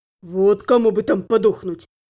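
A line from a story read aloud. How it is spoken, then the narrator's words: Grumbling. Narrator (Russian): проворчал Аддер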